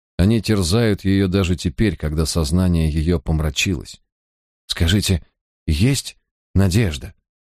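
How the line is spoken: Trembling voice, asking. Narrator (Russian): дрожащим голосом спросил Джозеф

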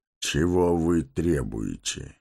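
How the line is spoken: Even voice. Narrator (Russian): спросил ровным голосом Гэндальф

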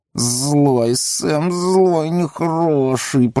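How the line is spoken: Hissing. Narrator (Russian): прошипел Горлум

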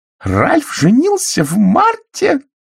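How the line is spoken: Shrill shriek. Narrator (Russian): пронзительно взвизгнула миссис Экройд

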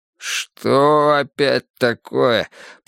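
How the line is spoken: Groaning. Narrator (Russian): простонал Пересолин

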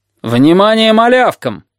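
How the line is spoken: Teenage boy shouting. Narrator (Russian): крикнул старшеклассник Кабан

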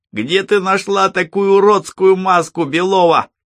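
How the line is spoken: Shouted with jeering hoots. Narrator (Russian): крикнул кто-то и заулюлюкал

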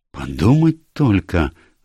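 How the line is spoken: Exclaimed. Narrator (Russian): воскликнула мисс Булстроуд

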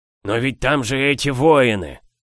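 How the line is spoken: Groan. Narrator (Russian): простонал он

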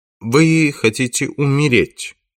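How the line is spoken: Calm question. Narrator (Russian): спокойно спрашивает Керн

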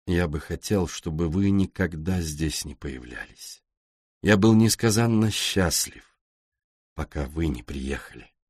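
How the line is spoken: Gloomy. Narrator (Russian): Он мрачно добавил

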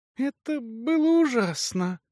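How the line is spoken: Whisper then sudden shriek. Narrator (Russian): прошептала она и вдруг взвизгнула

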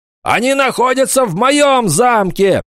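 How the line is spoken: Shouting nobleman. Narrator (Russian): закричал барон

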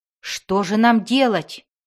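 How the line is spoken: Barbarian exclaiming. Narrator (Russian): воскликнул варвар

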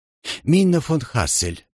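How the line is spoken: Dreamy repetition. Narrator (Russian): повторил он все тем же мечтательным тоном

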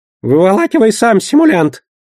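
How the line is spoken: Goblin's squeak. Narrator (Russian): пискнул гоблин

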